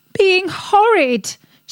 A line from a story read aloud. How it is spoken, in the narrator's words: screamed